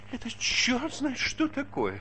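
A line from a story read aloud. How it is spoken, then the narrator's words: Whining. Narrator (Russian): скулил он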